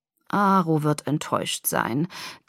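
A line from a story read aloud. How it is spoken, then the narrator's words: Sighing. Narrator (German): Dimitri seufzte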